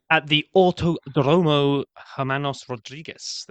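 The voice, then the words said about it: Put-on Spanish accent. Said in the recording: “I don't know if that was a Spanish accent, but you did really well.”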